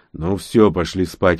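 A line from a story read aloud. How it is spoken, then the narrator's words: Grumbling mutter. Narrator (Russian): пробурчал Рон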